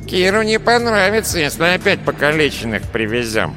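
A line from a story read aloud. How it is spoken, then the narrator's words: Nasal. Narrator (Russian): прогнусавил Безухий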